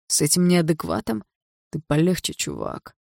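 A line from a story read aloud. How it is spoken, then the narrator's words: Lazy warning. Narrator (Russian): лениво предупредил его Барс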